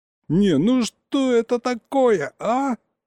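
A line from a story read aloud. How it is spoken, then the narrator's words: Yelling. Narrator (Russian): Заорал я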